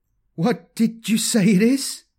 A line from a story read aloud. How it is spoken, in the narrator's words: he stuttered